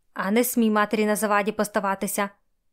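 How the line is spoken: Hissed. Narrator (Ukrainian): Просичала Раденчиха

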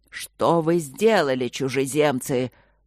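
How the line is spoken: Angry voice thundering from sky. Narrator (Russian): прогремел гневный голос с небес

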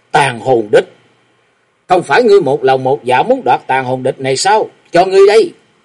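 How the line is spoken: Shaken, angry goddess crying out. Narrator (Vietnamese): Nữ táo thần Tiết Như Băng rúng động trước nhất, giận dữ kêu gian

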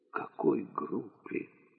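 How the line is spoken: Whispered question. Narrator (Russian): уже шепотом спросил Фарид

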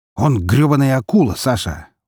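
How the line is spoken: Snorting. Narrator (Russian): фыркнул Лазарев

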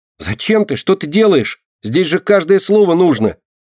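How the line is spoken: Mouse shouting. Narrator (Russian): кричала мышка

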